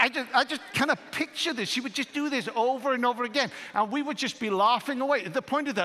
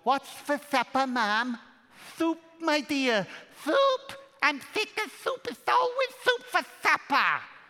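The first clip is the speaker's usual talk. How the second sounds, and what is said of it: Put-on Welsh accent. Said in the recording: “She would put on this Welsh accent”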